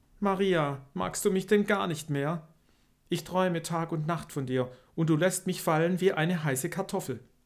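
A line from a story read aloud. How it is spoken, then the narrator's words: Pleading question. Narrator (German): Fausto flehentlich fragte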